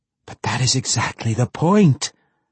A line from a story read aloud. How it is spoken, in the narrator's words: the Spider Queen exclaimed